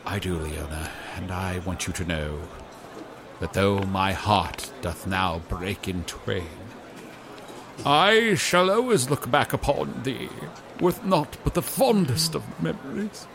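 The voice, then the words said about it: Put-on old-fashioned theatrical accent. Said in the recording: “What is with accent?”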